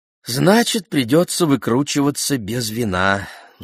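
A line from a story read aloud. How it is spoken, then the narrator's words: Sigh. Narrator (Russian): вздохнул Симон Тибо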